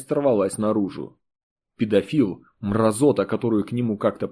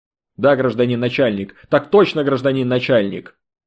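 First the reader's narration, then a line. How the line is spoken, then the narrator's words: Angry reply. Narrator (Russian): Зло ответил Артем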